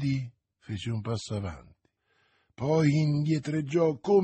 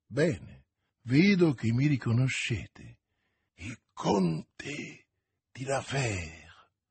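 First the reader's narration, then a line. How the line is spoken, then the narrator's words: Frightened murmur. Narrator (Italian): mormorò Milady impallidendo e indietreggiando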